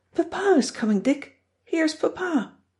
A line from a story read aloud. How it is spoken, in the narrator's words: Josie excitedly announces